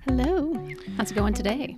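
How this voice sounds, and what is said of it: Polished radio announcer voice. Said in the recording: “Is that your radio voice? ... It is.”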